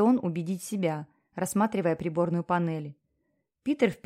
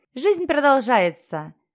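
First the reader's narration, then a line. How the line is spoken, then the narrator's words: Cheerful DJ. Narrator (Russian): радостно проговорил диджей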